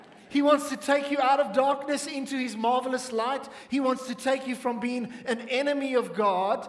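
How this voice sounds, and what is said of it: Usual voice. Nothing is said of it.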